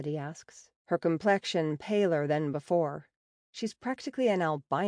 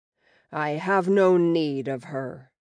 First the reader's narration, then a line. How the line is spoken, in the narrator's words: the Akal says, his tone a deep rumble